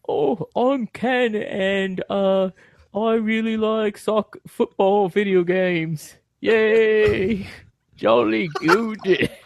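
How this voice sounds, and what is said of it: Put-on British accent. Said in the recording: “Can you do a British accent again? ... Spot on.”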